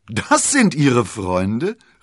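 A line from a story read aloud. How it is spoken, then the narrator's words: Laughing exclamation. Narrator (German): rief er und musste unwillkürlich lachen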